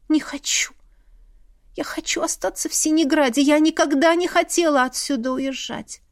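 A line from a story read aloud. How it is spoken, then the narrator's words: Whispered. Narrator (Russian): прошептала я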